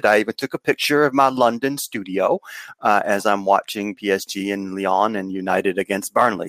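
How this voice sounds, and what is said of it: Southern American accent. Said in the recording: “my accent should tell you that I don't live in London. I live in the South in the US”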